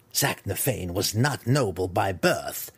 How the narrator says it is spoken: Malice sneered at her impertinent daughter

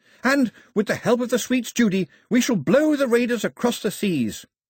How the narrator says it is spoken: Pilu was shouting

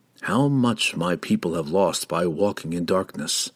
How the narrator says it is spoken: Driz whispered into the night

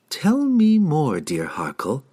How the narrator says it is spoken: Sydney purred enticingly

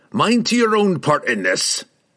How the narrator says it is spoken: Brunner snorted, suddenly the snarling leader once more

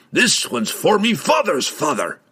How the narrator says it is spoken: he yelled

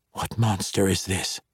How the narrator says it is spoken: he whispered

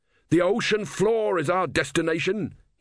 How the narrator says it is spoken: he shouted

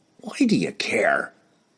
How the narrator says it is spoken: he growled

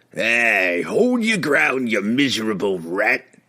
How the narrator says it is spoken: it growled

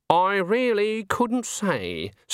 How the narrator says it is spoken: said Granny haughtily

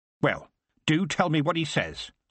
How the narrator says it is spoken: said Granny sharply

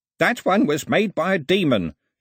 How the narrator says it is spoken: shouted Ataba

